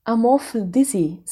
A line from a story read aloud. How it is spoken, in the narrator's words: said Diana